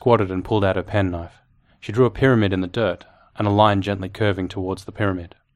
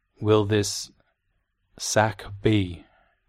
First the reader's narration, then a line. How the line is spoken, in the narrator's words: she pronounced slowly